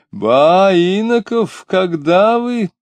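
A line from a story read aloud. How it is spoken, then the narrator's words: Joyful exclamation. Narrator (Russian): радостно вскричал филитонист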